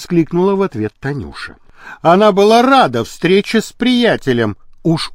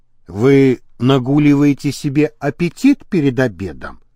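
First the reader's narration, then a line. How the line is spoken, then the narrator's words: Plain. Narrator (Russian): спросил Николев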